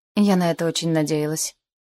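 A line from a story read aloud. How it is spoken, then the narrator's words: Gloomy. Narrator (Russian): мрачно сказала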